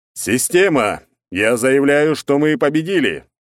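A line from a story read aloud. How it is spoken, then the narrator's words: Loud powerful declaration. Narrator (Russian): Громко, с мощью в голосе, обращается он к ней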